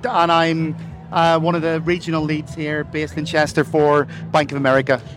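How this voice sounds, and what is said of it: Irish accent. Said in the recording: “I'm from Ireland. You probably hear from the accent.”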